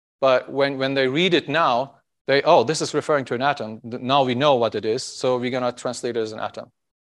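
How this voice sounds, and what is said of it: Speaker's own accent. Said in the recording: “Sorry about my accent.”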